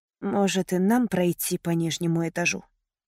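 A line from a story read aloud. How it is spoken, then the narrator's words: Quiet whisper. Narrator (Russian): тихо прошептал Трэвис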